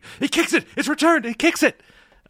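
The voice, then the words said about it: Enthusiastic Spanish-accented sports commentator. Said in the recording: “the native Spanish speaker who's commentating ... that accent ... the accent of enthusiasm”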